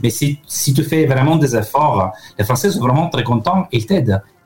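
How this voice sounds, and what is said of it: Italian accent speaking French. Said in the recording (French): “mon accent n'a pas eu beaucoup d'évolution... Il reste très italien.”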